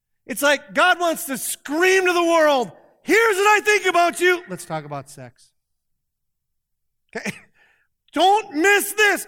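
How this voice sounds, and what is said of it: Yelling, loud emphatic preaching. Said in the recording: “I know I'm yelling at you”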